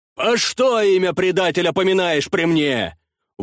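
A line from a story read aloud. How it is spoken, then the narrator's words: Shouted. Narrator (Russian): выкрикнул князь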